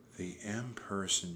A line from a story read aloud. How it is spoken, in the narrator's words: she whispered